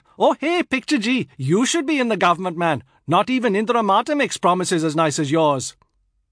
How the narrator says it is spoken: Unconvinced, a youth shouted out

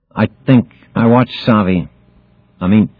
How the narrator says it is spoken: stammered Harmon

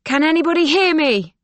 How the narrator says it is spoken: Silke shouts

